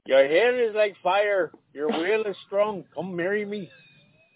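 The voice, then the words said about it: Put-on accent sounding Mexican. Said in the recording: “every time you try and do an accent, it comes out Mexican.”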